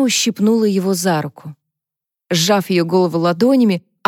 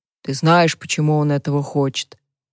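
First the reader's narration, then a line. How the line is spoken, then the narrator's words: Sighing. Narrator (Russian): Харпер вздохнула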